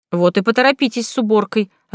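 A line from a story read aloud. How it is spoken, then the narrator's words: Snapped. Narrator (Russian): огрызнулась я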